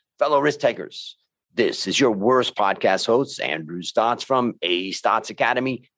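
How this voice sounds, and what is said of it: Deep resonant radio voice. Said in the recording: “I love your radio voice. It's definitely one of the better ones I've heard ... Using the depths of my stomach.”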